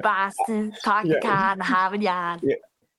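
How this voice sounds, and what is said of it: Put-on Boston accent. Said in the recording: “Boston accent”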